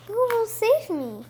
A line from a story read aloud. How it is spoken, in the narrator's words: cried the pretty princess again